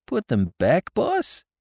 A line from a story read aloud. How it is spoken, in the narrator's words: he faltered